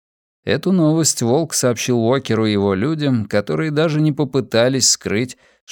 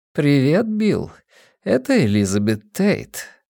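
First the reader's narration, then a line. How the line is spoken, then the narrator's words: Deep husky voice. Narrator (Russian): произнес глубокий, с хрипотцой голос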